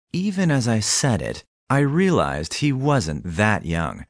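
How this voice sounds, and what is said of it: Usual voice. Nothing is said of it.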